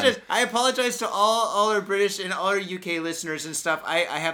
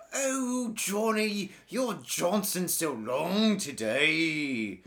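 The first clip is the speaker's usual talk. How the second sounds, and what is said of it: Put-on sexy British accent. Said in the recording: “very sexy, British, sexy accents... You think the British accent's sexy?... was that some kind of sexy?”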